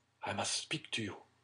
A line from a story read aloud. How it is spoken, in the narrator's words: whisper to Madame Danglars